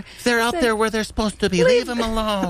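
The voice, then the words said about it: Mocking impersonation of co-host. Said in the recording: “That's an interesting impersonation of me you're doing all of a sudden in the middle of an apology.”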